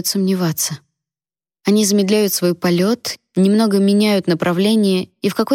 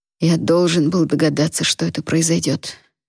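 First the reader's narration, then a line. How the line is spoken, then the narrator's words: Trembling mutter. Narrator (Russian): бормочет папа, и голос его дрожит, как я и ожидала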